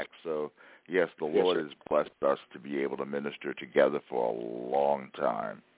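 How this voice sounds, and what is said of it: Deep bass radio DJ voice. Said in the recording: “radio voice, sir. Yeah, DJ voice ... I'm a bass.”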